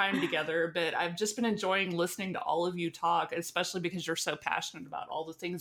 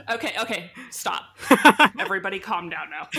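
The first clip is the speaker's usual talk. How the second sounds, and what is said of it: Stern motherly scolding voice. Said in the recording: “This is my mom voice.”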